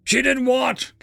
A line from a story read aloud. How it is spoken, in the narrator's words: Captain Pye blurted out